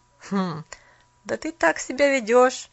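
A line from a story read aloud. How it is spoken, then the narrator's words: Laughing youth. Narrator (Russian): Паренек засмеялся опять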